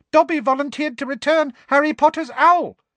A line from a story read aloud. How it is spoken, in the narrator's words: said the elf squeakily, with a look of positive adoration